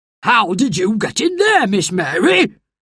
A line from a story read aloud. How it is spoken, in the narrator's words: he shouted crossly